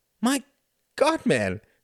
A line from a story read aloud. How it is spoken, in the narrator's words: cried Tom